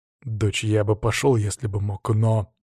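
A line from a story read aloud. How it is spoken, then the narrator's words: Restrained, almost calm reply. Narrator (Russian): Я расправился с эмоциями и почти спокойно ответил Тони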